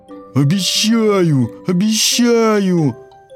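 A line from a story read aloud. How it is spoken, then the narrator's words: Wolf's pleading wail. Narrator (Russian): Умоляюще завопил волк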